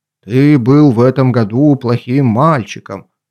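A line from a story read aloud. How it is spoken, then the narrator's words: Gloomy voice. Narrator (Russian): Санта-Клаус мрачно говорит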